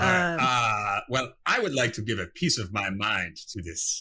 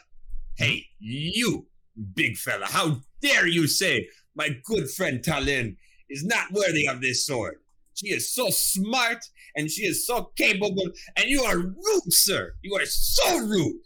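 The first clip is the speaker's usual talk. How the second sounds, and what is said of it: Yelling angrily. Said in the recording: “Don't raise your voice ... I'm just yelling at him.”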